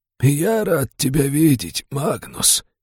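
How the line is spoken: Creaky old elf voice. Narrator (Russian): скрипучим старческим голосом произнес эльфийский маг

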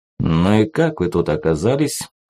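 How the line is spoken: Gloomy question. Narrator (Russian): мрачно спросил Кувалда

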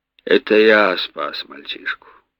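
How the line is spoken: Sighing. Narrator (Russian): Повар вздохнул и сказал

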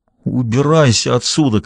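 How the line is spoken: Strained, choked voice. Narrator (Russian): каким-то сдавленным голосом произнес Клифф

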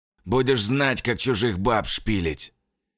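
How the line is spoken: Hoarse rasp. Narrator (Russian): прохрипел Фарафонов

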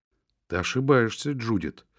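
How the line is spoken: Calm remark. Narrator (Russian): спокойно заметила Хэтти

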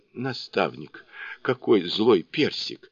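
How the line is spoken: Horrified exclamation. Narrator (Russian): в ужасе воскликнула она

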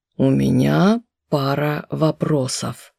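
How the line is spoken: Hoarse, after shock. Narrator (Russian): хрипло изрек Глетчер, когда первый шок прошел

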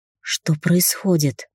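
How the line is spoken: Hoarse croak. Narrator (Russian): прохрипела

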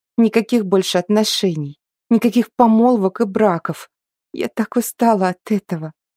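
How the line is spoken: Sobbing. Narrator (Russian): всхлипывала

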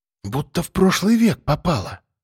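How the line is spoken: Whispered. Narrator (Russian): прошептала Вера

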